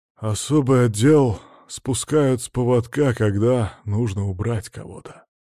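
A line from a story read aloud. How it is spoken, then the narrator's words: Grim. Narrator (Russian): мрачно произнес Палыч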